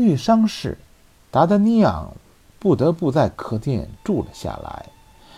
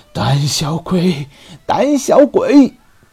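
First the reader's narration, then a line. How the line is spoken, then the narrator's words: Dizzy repeated shouting. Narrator (Chinese): 头晕使得他栽倒在路边，嘴里还不停嚷着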